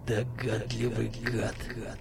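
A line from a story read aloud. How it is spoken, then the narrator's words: Hateful hiss. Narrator (Russian): с ненавистью прошипел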